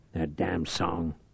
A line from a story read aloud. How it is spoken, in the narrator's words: Reich muttered